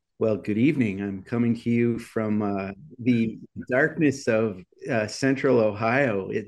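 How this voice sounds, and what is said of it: Radio DJ voice. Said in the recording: “This is my FM DJ voice.”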